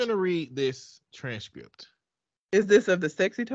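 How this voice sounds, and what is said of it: Usual voice. Nothing is said of it.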